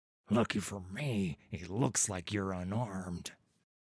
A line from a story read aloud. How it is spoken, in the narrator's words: under his breath